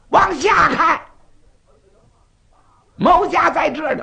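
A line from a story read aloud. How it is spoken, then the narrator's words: Shouting. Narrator (Chinese): 土行孙又喊了嗓子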